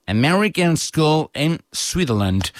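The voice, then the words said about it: Put-on American accent. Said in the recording (Catalan): “ho hem de dir amb accent americà, eh?”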